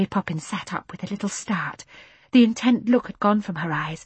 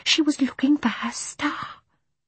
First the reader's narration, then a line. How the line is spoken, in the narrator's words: whispered Michael